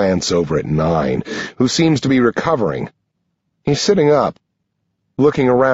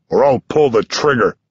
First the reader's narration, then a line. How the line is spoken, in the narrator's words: growls